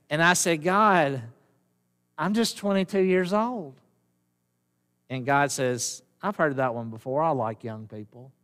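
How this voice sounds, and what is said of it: Strong southern drawl. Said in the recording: “I have a southern drawl. Have y'all noticed that? It's pretty bad, isn't it?”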